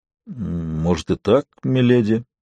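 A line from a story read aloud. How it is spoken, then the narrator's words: Uncertain answer. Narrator (Russian): неуверенно ответил Дунк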